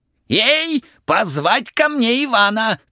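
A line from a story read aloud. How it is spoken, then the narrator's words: King's hurried shout. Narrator (Russian): царь поспешно закричал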